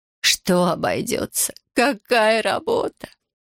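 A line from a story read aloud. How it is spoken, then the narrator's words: Despairing woman sobbing. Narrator (Russian): Не сдержав отчаяния, всхлипнула женщина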